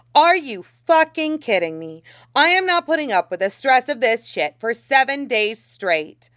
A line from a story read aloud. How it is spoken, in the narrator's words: Xiangcheng Hua all but stood up and shouted